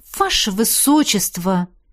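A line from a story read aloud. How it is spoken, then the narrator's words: Indignant. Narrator (Russian): Возмущенно проговорила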